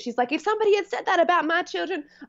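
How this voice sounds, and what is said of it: Puts on an accent quoting someone. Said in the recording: “I don't know why I've given her that accent”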